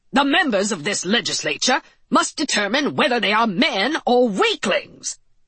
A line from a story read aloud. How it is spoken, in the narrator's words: shouted Leonidas L